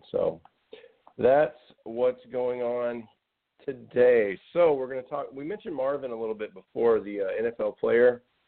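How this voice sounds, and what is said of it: Husky, scratchy voice. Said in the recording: “I apologize for my voice. I know I sound very husky today, but for some reason I just have a little scratchy thing going on.”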